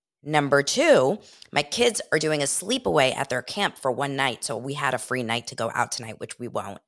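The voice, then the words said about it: Sick, congested voice. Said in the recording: “if you guys are hearing me correctly, you will hear that I am sick ... I have a cold.”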